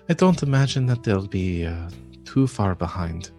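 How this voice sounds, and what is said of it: Put-on accent drifting Irish. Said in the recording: “Can't do that accent. It's going a little bit Irish.”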